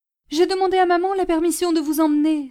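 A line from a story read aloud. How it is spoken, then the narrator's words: Eager cry. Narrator (French): s'écria Simplici avec empressement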